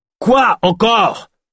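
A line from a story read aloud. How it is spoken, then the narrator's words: Mayor barking. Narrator (French): aboya le maire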